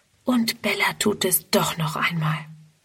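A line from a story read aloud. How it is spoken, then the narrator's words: Whispering to herself. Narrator (German): Friedrun flüstert vor sich hin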